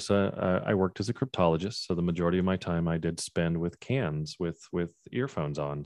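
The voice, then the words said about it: Smooth radio-style speaking voice. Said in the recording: “you have radio voice.”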